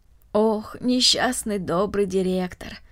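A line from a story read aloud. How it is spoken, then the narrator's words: Sighing. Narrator (Russian): вздохнула Марта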